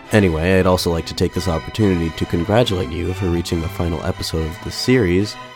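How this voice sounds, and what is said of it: Slightly off, recovering-from-illness voice. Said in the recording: “my voice sounds a little off today. I'm just getting over a mild illness, and my voice still isn't 100% back to normal.”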